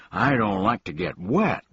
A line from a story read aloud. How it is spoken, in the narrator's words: moaned the unhappy bug